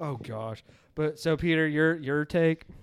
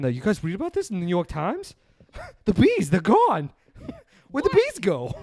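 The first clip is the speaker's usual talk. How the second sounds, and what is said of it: Imitates another person's voice, badly. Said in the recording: “my impression's so bad.”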